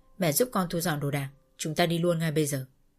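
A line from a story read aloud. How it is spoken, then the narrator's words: Cold. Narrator (Vietnamese): Còn Cầm thì lạnh lùng và nói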